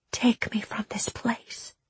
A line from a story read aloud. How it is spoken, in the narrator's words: she whispered to him